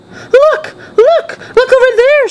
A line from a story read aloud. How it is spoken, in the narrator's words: screamed